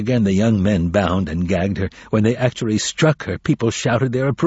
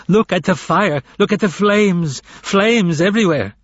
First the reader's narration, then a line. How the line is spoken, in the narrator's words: The woman was shouting louder than before